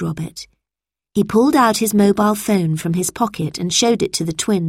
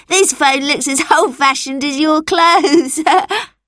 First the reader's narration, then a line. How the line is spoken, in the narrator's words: laughed Anton